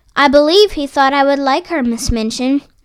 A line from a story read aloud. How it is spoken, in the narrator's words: replied Sarah